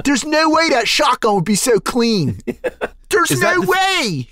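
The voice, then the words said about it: Philadelphia accent. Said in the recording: “Yeah, that's the accent. It's very similar to Baltimore. There's a lot of O's.”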